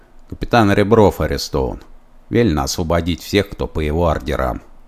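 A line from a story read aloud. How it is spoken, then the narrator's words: Quiet, knowing. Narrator (Russian): негромко сказал кто-то всеведущий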